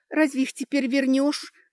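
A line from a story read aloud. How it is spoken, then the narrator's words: Sorrowful sigh. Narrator (Russian): горестно вздохнула девушка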